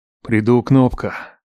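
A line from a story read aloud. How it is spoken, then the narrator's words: Resigned exhale. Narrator (Russian): выдохнул я, признавая свое полное поражение на любовном фронте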